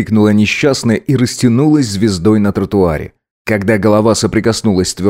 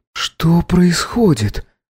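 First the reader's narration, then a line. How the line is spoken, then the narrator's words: Faint timid murmur. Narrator (Russian): Пролепетала чуть слышно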